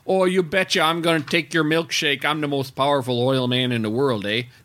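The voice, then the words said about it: Exaggerated Wisconsin accent. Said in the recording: “that character was supposed to be from Wisconsin ... His accent should have been”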